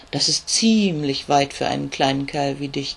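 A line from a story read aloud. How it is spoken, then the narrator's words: Croaking raven. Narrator (German): krächzt der Rabe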